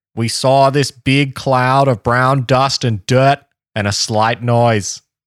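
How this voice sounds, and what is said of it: Put-on Boston accent. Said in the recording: “This is a Boston accent. ... JFK's there. ... your JFK accent.”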